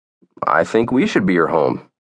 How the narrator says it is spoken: said Nate

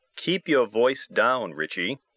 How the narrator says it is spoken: I said

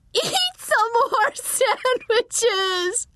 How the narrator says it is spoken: a woman shrieked

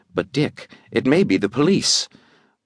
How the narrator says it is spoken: She said hesitantly

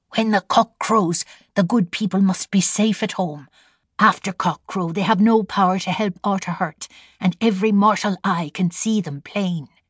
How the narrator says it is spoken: Sheila whispered

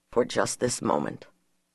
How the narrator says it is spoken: murmured

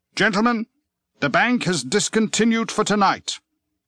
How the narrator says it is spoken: the croupier called out

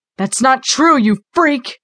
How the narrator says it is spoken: shouted

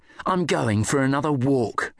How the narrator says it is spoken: he snarled

